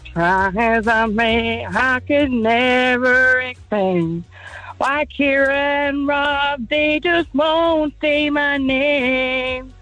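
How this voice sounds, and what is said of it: Sung impression of a pop singer. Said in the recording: “your Ronan Keating impression”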